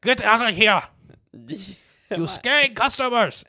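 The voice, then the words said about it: Failed German accent sounding Asian. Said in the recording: “I can't do a good German accent. ... It went right to Asian. ... Yeah, it's very Asian. It was good. Like, very stereotypical. ... Going for German. It landed just right on Asian.”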